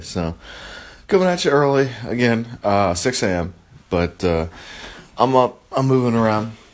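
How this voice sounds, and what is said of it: Deep early-morning voice. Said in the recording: “I surprise myself by how deep my voice is sometimes ... if it's the first time that I've spoken for the day”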